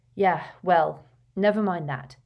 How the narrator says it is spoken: said Harry bitterly

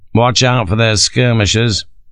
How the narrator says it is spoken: Sharp advised dryly

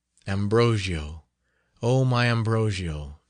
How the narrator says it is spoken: sighed Matilda

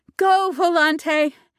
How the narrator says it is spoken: shouted

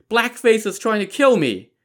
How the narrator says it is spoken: she heard her daughter scream

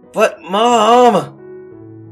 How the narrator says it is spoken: He whined

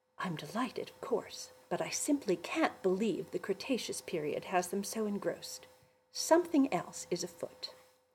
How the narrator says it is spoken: Mother whispered back

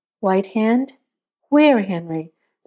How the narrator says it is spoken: asked

